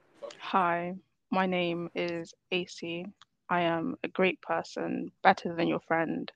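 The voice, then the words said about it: British accent. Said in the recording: “You got an accent? ... Yeah, I'm British. ... She's proper British.”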